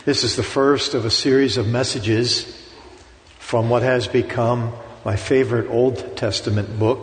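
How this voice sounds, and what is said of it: Pittsburgh American accent. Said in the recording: “I still have a Pittsburgh accent”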